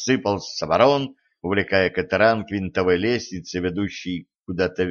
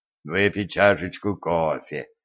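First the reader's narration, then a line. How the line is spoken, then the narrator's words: Barely audible mumble. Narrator (Russian): еле слышно пробурчал Денис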